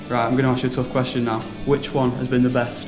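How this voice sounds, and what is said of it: Manchester accent. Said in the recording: “in case you can't tell by my accent, I do want you to say Manchester.”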